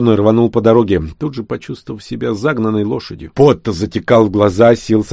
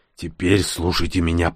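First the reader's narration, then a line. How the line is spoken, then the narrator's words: Hoarse rasp. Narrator (Russian): прохрипел шейх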